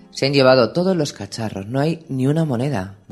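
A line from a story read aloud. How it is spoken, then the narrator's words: Murmur. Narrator (Spanish): murmuró Llorén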